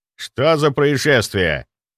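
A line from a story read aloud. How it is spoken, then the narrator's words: Irritated, displeased. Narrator (Russian): раздраженно, явно недовольный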